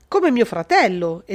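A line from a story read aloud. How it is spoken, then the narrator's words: Exclaimed. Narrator (Italian): esclamò Arnaldo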